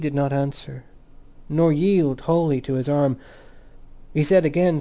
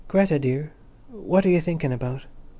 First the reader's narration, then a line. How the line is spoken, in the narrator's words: he said softly